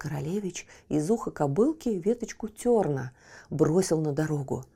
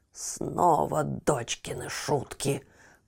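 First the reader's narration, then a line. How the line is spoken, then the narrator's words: Grumbling mutter. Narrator (Russian): пробурчал он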